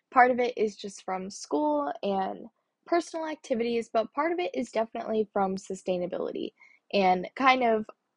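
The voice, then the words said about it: Tired, worn-out sounding voice. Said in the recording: “If you can't tell by my voice, I am a little bit burnt out”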